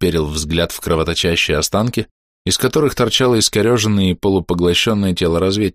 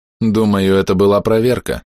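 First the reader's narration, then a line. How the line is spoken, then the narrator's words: Flat emotionless tone. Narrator (Russian): ровным безэмоциональным тоном сказал Сиэрд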